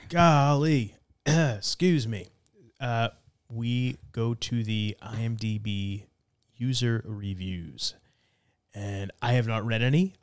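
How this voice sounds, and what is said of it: Hoarse, strained voice. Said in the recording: “I was trying to clear my throat because I'm losing my voice again.”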